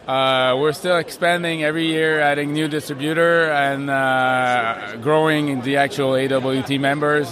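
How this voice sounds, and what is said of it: Quebec French accent. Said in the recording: “you sound a little different than everybody else here ... you guys are in Quebec”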